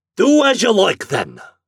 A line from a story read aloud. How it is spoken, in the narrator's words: shouted Flannery